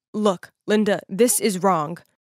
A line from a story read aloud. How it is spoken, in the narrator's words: in a firm voice, he said